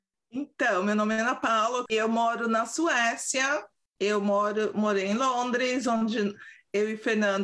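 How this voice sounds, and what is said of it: São Paulo Brazilian Portuguese accent. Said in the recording (Portuguese): “Meu sotaque paulistês”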